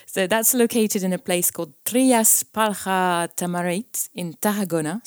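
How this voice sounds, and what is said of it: Poor attempt at Spanish accent. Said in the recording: “Forgive my horrible Spanish accent.”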